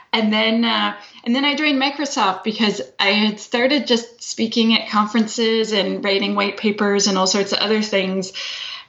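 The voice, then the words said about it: Canadian accent. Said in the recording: “I'm Canadian. That is the accent you are hearing.”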